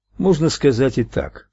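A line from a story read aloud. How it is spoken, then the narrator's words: Dry remark. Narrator (Russian): сухо заметил Майк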